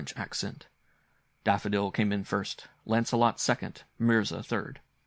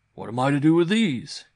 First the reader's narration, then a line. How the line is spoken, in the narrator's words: he cried